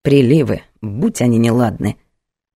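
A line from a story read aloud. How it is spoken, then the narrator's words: Mutter. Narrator (Russian): пробормотала она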